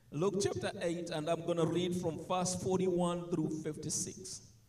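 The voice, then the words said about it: Noticeable accent. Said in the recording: “As you can tell, the accent there.”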